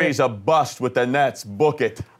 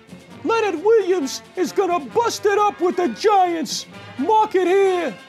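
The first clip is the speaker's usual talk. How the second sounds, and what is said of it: High falsetto voice. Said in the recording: “Shouldn't Mini Spaghetti have a higher voice? ... Can you achieve a high voice? ... I have a good falsetto.”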